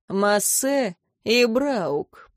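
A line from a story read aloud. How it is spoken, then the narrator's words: Knowing drawl. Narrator (Russian): понимающе протянул инквизитор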